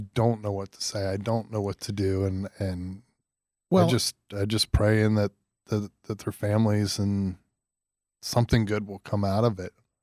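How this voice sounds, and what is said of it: Flustered, emotional voice. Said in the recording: “I'm flustered. I, you can hear it in my voice.”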